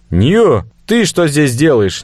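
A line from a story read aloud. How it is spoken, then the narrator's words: Impulsive shout. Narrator (Russian): не удержавшись, крикнул я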